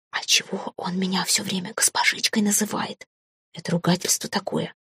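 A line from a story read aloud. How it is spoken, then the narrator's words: Whispered question. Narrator (Russian): спросила я шепотом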